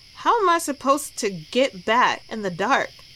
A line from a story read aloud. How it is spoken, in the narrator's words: Jack grumbled